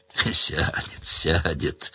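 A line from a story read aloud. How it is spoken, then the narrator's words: Old woman, gently, as to child. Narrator (Russian): ласково, как несмышленышу, закивала ему старуха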